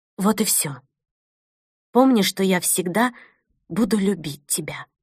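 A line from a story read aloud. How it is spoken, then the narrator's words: Added quietly. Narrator (Russian): тихо добавила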